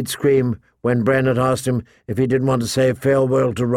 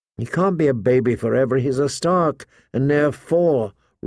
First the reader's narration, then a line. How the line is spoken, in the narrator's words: Rob sighed